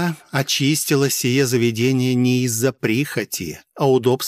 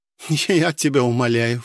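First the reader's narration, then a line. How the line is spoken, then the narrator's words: Scoffing snort. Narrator (Russian): фыркнула Пелагея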